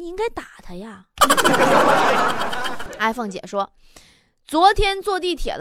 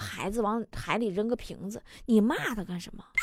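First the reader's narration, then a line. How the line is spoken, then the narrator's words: Plain. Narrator (Chinese): 我就继续说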